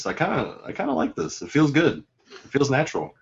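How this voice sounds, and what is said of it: Imitates another person's voice. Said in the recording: “in my Don Mimic voice”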